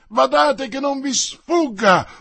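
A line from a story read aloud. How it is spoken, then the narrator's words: Very loud yell. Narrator (Italian): urlò una voce fortissima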